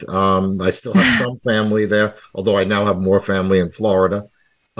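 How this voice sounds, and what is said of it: New York accent. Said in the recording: “It's still in my accent.”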